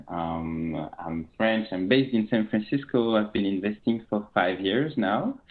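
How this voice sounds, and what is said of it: French accent. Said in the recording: “You will very quickly notice that I'm French with my accent.”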